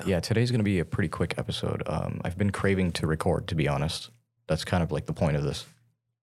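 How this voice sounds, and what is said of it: Tired-sounding voice. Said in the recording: “I'm really tired. You can probably hear it in my voice too.”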